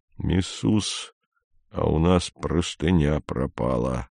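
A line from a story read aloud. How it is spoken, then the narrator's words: Quiet. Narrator (Russian): Мбога тихонько сказал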